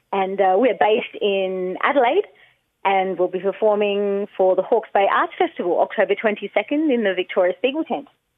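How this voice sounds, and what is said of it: Australian accent. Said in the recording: “you live in Australia. We can hear it in the accent”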